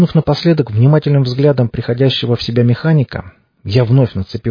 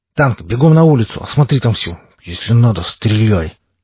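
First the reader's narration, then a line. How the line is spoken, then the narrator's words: Muttered through clenched teeth. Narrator (Russian): процедил я сквозь зубы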